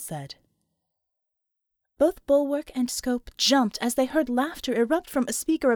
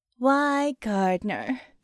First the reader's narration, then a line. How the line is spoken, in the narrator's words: she said, in a faintly sardonic tone